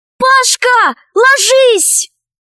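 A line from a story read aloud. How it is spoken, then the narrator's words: Shouted. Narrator (Russian): Алиса крикнула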